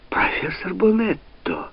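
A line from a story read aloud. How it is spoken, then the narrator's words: Exclaimed. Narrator (Russian): воскликнул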